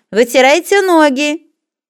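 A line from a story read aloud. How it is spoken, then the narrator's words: Friendly shout, old woman. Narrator (Russian): Старенькая вахтерша приветливо заулыбалась Ване и крикнула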